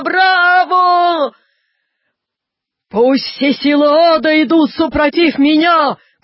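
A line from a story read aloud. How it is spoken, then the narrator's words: Shouting. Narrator (Russian): кричал Наполеон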